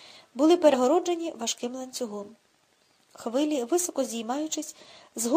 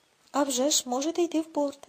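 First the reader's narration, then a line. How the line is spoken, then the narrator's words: Calm reply. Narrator (Ukrainian): спокійно відповів Гудхарт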